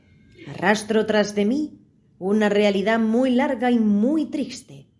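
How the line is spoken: Sighing exclamation. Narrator (Spanish): exclamó el ratón dejando escapar un suspiro

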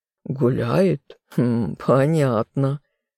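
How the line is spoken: Chuckling. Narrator (Russian): хохотнул Сид

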